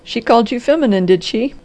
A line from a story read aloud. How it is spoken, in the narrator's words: cried the doctor, dancing and laughing